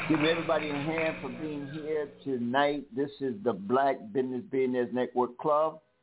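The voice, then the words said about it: South Carolina Southern accent. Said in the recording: “my South Carolina accent sometimes gets to me and people don't understand what I be saying”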